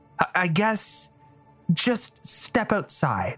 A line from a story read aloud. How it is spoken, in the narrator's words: she said hesitantly